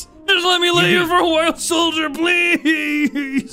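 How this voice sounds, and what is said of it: Completely different character voice. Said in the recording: “I'm putting on a completely different voice”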